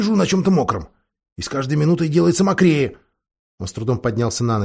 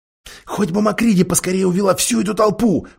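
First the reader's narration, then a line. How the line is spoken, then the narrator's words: Whispered. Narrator (Russian): прошептала Сьюзан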